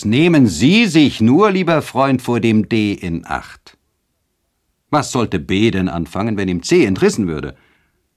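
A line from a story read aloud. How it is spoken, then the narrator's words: Exclaiming. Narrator (German): Eduard hingegen rief aus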